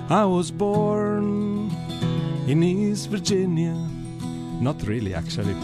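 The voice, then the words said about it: Singing in a southern accent. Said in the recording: “my typical southern accent... your southern accent”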